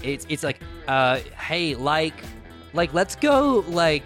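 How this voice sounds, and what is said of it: Put-on American accent. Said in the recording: “I can do an American accent. I can do a common accent if you want. I'm good at it. ... That's so good. ... It sounds great.”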